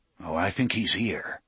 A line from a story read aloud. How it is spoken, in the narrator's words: Roland murmured